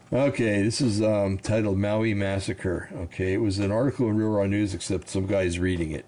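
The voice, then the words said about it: Slightly raspy voice. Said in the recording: “I have a little raspy throat going on here”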